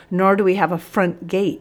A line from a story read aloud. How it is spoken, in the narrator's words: he wheezed